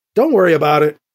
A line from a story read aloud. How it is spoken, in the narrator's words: Edwards said